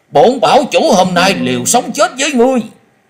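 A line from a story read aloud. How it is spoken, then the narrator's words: Desperate frenzied shout. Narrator (Vietnamese): Hắc thạch bảo chủ tự biết hôm nay khó lòng thoát khỏi kiếp số, nhưng hắn không cam tâm cúi đầu, cất giọng điên cuồng hét lớn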